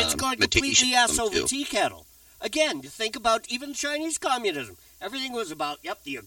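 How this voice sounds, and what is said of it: Usual voice. Nothing is said of it.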